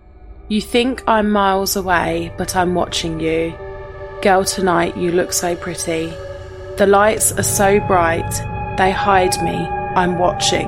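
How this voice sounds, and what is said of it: Scary, sexy sung voice. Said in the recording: “You got to do your scary, sexy voice.”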